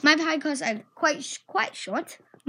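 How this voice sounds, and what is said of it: Put-on British accent. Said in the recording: “My British accent.”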